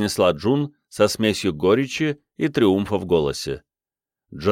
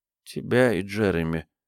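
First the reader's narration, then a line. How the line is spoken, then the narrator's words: Boy speaking quietly. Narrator (Russian): тихо сказал мальчик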